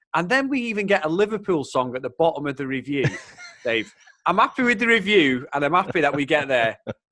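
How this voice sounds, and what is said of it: Mancunian English accent. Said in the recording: “my Mancunian accent”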